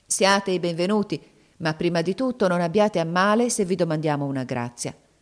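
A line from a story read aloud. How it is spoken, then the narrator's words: Grave, serious tone. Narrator (Italian): Zobeida disse loro con tuono grave e serio come a lei conveniva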